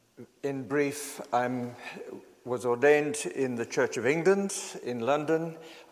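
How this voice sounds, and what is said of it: South African accent. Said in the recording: “I'm a South African. For those whose ears are attuned to accents, I've been living in the UK for about 42 years now. But people still pick it up.”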